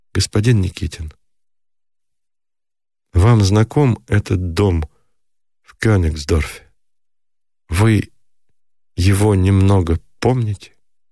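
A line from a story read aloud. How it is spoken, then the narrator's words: Timid, quiet question. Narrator (Russian): все так же робко спросила негромко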